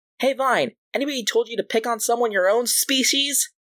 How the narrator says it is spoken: Refract shouts out

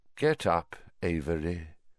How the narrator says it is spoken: said Voldemort softly

